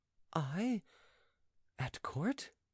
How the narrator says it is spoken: said Andrea timidly

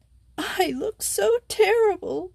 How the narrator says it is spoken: sobbed Simone

